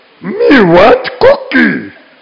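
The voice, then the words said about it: Cookie Monster cartoon voice. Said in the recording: “in the voice of the Cookie Monster from like when I was a kid ... doing this voice”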